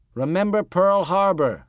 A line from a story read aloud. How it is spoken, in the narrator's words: yelled Dwayne